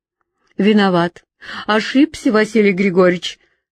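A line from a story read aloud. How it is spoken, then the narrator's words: Mocking, self-annoyed. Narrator (Russian): сказал, как будто насмешливо, но и несколько досадуя на себя за промах, Кривцов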